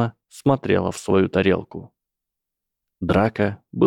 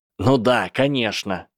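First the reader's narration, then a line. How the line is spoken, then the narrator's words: Shouting. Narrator (Russian): кричал Энтони Голдштейн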